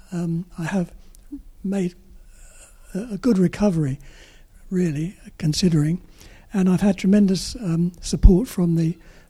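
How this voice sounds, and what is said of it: Peculiar, impaired-sounding voice. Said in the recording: “my voice is all peculiar”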